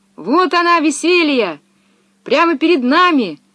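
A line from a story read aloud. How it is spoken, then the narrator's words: Shouting. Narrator (Russian): закричала Пеппи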